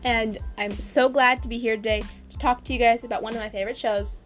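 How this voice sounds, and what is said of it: Slightly messed up voice. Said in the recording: “my voice is a little messed up from the season”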